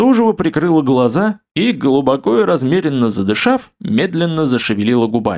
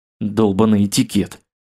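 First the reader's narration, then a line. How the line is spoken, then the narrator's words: Muttering. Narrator (Russian): пробормотал я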